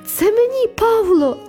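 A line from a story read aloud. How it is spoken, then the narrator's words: Joyful shout. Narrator (Ukrainian): радісно закричала я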